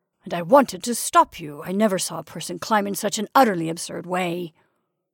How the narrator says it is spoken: growled

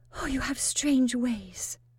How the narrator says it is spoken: she said presently, blushing

